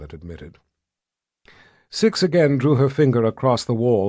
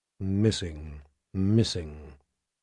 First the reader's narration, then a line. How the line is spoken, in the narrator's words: Violet muttered